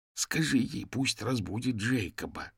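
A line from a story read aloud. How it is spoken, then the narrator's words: Desperate hiss. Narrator (Russian): в отчаянии зашипел Бернард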